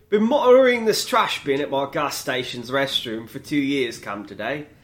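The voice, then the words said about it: Put-on British accent. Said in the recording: “But I'm going to use the British accent.”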